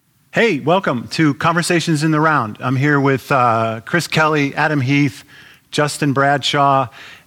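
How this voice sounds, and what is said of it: Loud, yelling voice. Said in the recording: “I'm yelling already”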